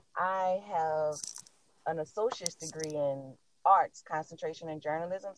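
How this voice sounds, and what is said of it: New Orleans accent. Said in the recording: “I am from New Orleans, Louisiana. The accent didn't give me away.”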